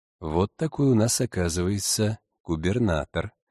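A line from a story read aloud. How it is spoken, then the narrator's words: Priest's sigh. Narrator (Russian): вздохнул отче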